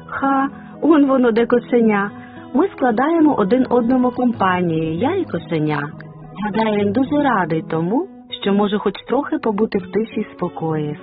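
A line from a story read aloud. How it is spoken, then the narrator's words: Plain. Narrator (Ukrainian): сказала Бетсі Енн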